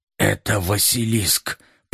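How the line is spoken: Muttering. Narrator (Russian): пробормотал доктор

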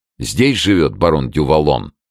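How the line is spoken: Resolute question. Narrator (Russian): решительным тоном спросил Д'Артаньян

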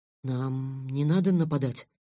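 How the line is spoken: Trembling question. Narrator (Russian): дрожащим голосом спросил Лен

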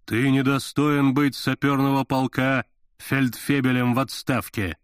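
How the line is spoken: Booming exclamation. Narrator (Russian): восклицаю я гулким голосом

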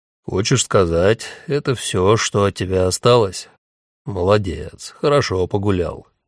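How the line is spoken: Gloomy. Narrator (Russian): мрачно говорит Стефан

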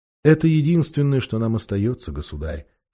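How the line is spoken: Plain. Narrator (Russian): сказал единорог

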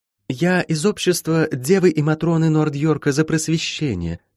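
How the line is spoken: Sweet girl's voice, muffled by mask. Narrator (Russian): сладким голоском проговорила девочка из-под маски

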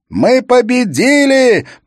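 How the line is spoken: Roaring right into ear. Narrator (Russian): проревела Лис прямо ему в ухо

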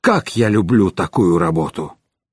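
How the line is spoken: Wheezing young man, spitting blood. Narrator (Russian): Юноша с задранным носом захрипел, выплюнул кровь

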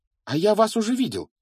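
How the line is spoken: Exclaimed. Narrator (Russian): воскликнул Гарри

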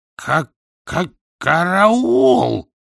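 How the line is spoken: Hoarse rasp, wolf. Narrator (Russian): прохрипел кривой волк

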